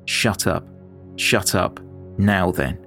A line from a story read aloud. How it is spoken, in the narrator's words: he said